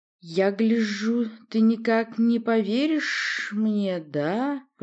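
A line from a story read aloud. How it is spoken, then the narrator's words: Hissing. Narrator (Russian): прошипел Арут Минш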